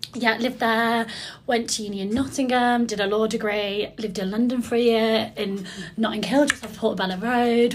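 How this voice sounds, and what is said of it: Birmingham-area English accent. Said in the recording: “I'm from near Birmingham, if you can't tell from my awful accent”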